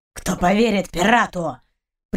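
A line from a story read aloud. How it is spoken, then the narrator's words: Growled, dog. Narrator (Russian): прорычал пес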